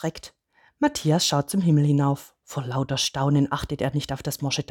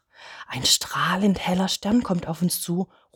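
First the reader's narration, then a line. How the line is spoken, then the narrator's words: Excited call. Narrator (German): ruft er aufgeregt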